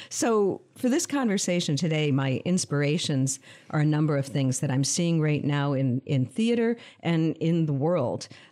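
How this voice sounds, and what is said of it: Calm, controlled podcast voice. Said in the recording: “You have such a great podcast voice. ... Like very calm and like controlled.”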